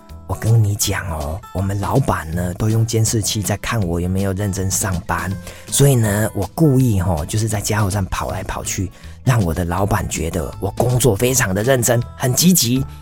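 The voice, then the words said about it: Quiet, hushed voice. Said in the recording (Chinese): “他就小声的跟我说”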